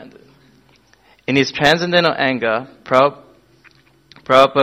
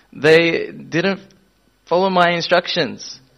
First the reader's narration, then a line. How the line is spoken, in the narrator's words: stammered the temple president